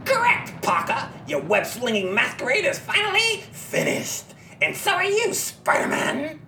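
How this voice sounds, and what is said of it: Raucous cackling shouted villain voice. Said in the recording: “the raucous, cackling voice of the Green Goblin ... he's shouting”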